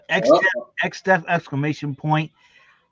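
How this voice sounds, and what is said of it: Imitates another person's voice. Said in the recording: “my Arnold Schwarzenegger impression.”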